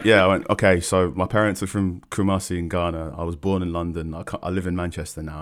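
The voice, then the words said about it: English accent. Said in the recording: “an English accent”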